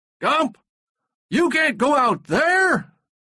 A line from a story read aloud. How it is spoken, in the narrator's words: somebody shouted